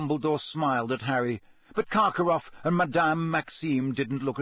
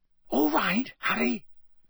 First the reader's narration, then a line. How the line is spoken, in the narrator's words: Bagman whispered